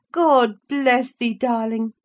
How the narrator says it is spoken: cried, forgetting instantaneously my foolish fears

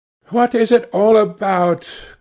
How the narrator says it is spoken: cried Dorian in his petulant way

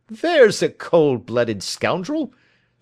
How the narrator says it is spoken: said Holmes, laughing

